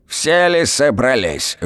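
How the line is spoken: Sudden loud old woman shout. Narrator (Russian): внезапно зычно крикнула баба Поля

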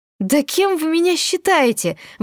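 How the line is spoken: Angry exclamation. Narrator (Russian): воскликнула я в гневе

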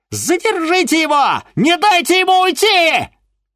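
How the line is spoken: Shrieking. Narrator (Russian): визжала Ольга Эдуардовна

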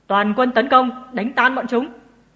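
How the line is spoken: Loud battle shout. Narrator (Vietnamese): Cô hét to

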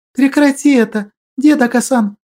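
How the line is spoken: Pleading. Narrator (Russian): взмолилась она

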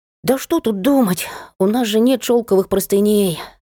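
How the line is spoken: Child's regretful sigh. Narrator (Russian): С сожалением вздохнул ребенок

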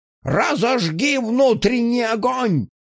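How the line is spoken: Shouted in face. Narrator (Russian): крикнул мне в лицо этот псих

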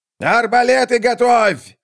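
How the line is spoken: Shout. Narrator (Russian): закричал скрипач

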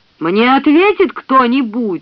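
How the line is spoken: Shouted. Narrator (Russian): закричал Пакстон

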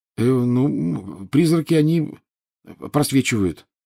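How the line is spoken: Mumbling. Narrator (Russian): промямлил Гарри

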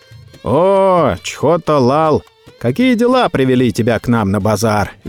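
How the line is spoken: Cheerful greeting. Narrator (Russian): весело приветствовал Чхота Абдалла

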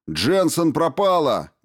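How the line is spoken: Shout. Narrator (Russian): крикнул он

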